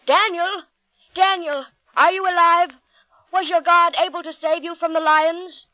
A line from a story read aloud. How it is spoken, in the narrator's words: Even though there was little hope, the king hurried and called out